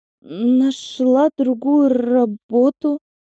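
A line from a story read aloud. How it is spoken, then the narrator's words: Trembling voice. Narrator (Russian): вновь дрогнувшим голосом сказала я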